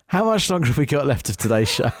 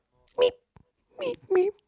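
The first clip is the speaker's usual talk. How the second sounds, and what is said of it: Imitates a guinea pig's squeak. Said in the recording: “do a guinea pig impression ... that sounds like an alien”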